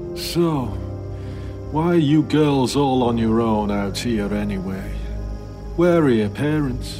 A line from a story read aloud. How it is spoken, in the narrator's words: with drooping eyes and slightly slurred speech that he asked